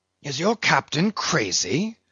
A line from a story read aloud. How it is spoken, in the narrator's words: whispering Fadala